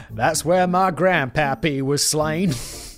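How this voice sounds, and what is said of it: Generic American accent. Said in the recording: “I'm just doing my generic American accent.”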